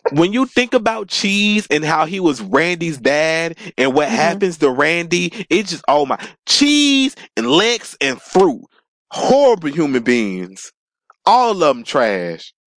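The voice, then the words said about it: Loud, excited yelling. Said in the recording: “sorry I'm yelling y'all, but I get really turned up”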